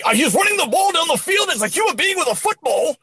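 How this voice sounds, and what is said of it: Screaming sportscaster-style delivery. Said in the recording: “they just start screaming like ... I don't know why I'm screaming”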